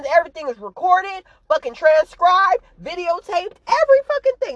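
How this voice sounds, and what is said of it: Yelling, worked-up delivery. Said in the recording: “if I'm yelling. I'm just worked up. I'm just passionate, and I'm excited”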